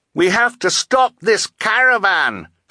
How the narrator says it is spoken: Klaus screamed

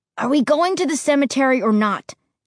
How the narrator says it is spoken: Josh asked impatiently

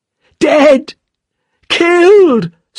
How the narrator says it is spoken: screamed the man

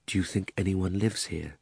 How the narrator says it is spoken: said Diggory at last, still in a whisper

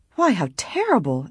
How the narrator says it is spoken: Emily exclaimed

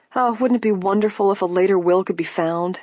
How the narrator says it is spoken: Allison exclaimed

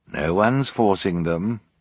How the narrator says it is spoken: said Ishmael calmly

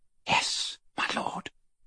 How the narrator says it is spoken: whispered Bellatrix, and her eyes swam with tears of gratitude

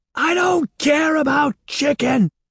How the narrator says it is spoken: Evan shouted, losing control

